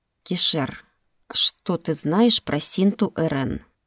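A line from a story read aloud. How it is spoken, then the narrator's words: Soft inquiry. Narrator (Russian): мягко поинтересовался Рошер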